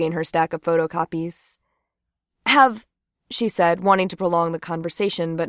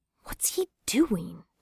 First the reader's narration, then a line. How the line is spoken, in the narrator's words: Jane whispered